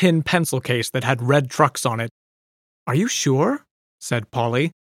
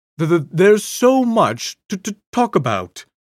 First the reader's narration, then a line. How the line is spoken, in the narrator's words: he stammered